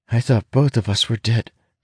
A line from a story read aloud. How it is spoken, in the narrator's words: she admits shakily